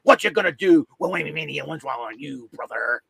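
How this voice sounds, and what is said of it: Imitates another person's voice. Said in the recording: “that's my Hulk Hogan impression”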